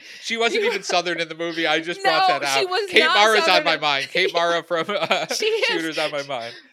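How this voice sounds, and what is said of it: Usual voice. Nothing is said of it.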